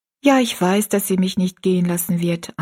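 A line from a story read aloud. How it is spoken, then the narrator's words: Plain. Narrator (German): antwortete Rosalie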